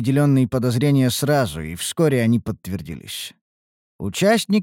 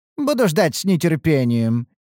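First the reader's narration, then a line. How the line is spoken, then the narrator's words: Laughing. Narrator (Russian): рассмеялся Бхарат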